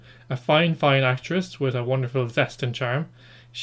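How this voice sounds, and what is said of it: Usual voice. Nothing is said of it.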